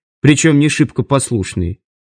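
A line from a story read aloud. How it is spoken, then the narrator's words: Cold. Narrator (Russian): холодно ответил Лайк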